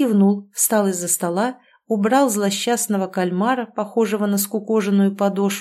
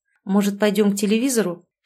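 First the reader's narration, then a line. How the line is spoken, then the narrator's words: Forced, awkward. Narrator (Russian): Чтобы сказать хоть что-то, выдавил Герман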